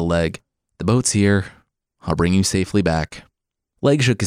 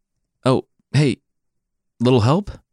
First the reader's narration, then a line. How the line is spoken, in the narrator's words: Cuchulainn cried out